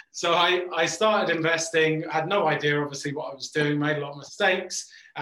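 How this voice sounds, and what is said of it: English accent. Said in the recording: “As you can tell, I'm English ... maybe I've lost my English accent slightly”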